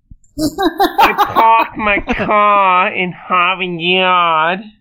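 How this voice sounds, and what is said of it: Put-on Boston accent. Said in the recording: “give me a Boston accent? ... A Boston accent?”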